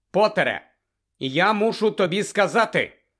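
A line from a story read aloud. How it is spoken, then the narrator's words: Loud and clear. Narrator (Ukrainian): голосно й виразно промовив він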